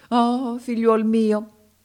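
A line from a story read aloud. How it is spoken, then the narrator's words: Exclaimed. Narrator (Italian): esclamò il mago africano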